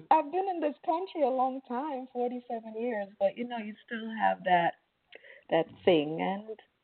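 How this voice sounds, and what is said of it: Slight foreign accent. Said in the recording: “I hear a little accent going on there ... I was trying not to throw it in, but it comes out.”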